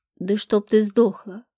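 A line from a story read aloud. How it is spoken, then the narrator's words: Spiteful words through teeth. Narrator (Russian): процедил Зеленый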